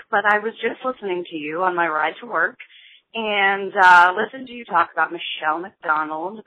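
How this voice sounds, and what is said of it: Raspy, hoarse voice. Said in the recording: “my raspy voice. I've been sick for about a week”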